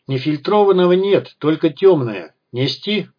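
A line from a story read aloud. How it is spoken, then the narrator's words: Shout from afar. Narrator (Russian): крикнул бармен из-за стойки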